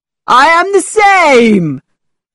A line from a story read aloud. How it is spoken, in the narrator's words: cried Mr